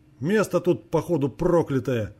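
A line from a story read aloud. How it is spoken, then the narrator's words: Snorting. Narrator (Russian): Хмыкнул мужчина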